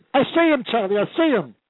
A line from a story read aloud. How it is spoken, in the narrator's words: And I hollered at Charlie